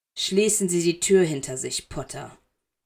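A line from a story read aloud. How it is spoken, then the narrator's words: Cold. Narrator (German): sagte er kalt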